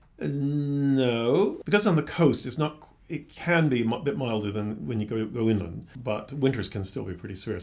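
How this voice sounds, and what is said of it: Mild American accent. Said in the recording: “Your accent suggests you're from further afield ... I'm from the United States originally ... I didn't have as pronounced a Boston accent as my father does”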